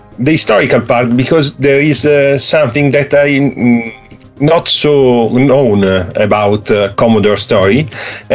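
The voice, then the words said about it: Italian accent in English. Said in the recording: “forgive me for my English, but I'm Italian... you have some Italian accent”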